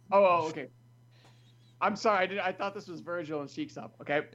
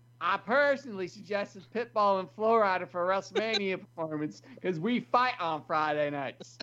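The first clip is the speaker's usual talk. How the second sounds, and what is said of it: Imitates another person's voice. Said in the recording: “in your JBL voice.”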